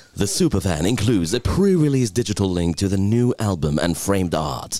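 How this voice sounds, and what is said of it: Announcer-style radio voice. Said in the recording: “in your best radio voice ... your best radio voice”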